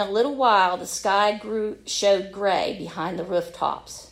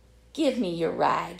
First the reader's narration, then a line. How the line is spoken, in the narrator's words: he said softly